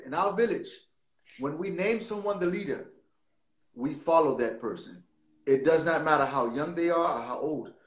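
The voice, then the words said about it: Put-on Ghanaian villager accent. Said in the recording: “Notice my accent too. I don't know why I went straight to it. ... In our village, the story wouldn't be the story without the accent.”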